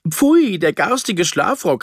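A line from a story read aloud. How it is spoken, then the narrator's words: Exclaimed. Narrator (German): rief sie aus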